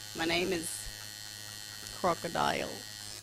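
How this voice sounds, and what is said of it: Poor put-on Australian accent. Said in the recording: “I'm not very good at Australian accents.”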